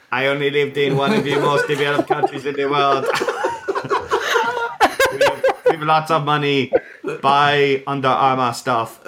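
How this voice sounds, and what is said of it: Robotic accent like 80s movie computer. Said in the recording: “You've got to do the accent ... He sounds like a computer from every 80s movie ever.”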